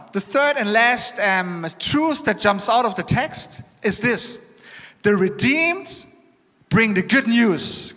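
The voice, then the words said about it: Non-native English accent. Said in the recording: “Excuse my English. The accent makes it kind of interesting.”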